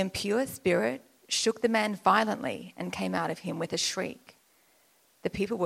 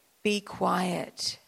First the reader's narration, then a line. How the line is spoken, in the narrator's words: said Jesus sternly